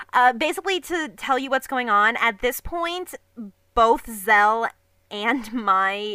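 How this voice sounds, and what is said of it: Usual voice. Nothing is said of it.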